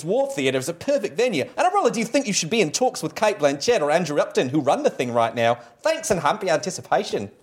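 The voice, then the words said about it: Mashed-up Cockney Australian put-on accent. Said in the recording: “mashup of weird Cockney and poor Australian ... Just a hint of New Zealand ... with an underscore of stupid American the entire time”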